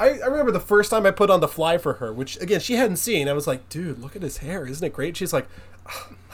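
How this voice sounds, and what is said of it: Usual voice. Nothing is said of it.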